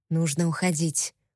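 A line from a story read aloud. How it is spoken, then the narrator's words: Whisper. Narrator (Russian): прошептал Тогра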